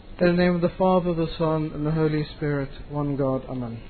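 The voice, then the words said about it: British English accent. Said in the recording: “my accent is really funny? ... Very British? ... Oh, we love your accent.”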